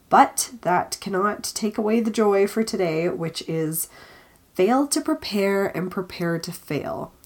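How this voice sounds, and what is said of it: Congested, stuffy nasal voice. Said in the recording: “I'm slightly recovering from my congestion, but you can still hear it in my voice”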